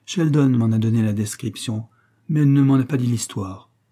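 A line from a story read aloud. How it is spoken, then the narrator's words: Plain. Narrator (French): répondit Elsa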